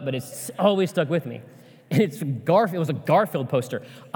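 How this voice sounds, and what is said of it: Choked-up, emotional voice. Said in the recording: “I don't know why I'm getting choked up”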